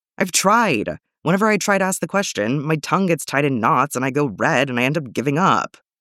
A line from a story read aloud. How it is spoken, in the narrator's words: Bucky moans